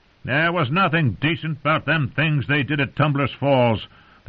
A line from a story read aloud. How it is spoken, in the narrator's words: the townsman growled right back at him